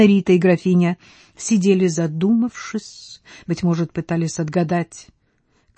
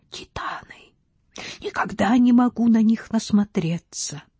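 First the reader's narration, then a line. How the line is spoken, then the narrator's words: Whispering repeatedly. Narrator (Russian): Граф Трестка повторял шепотом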